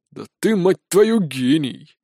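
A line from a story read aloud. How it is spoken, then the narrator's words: Displeased grumble. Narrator (Russian): недовольно проворчал капрал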